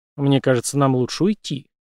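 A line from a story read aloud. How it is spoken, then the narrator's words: Quiet speech. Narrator (Russian): тихо произнес Брейс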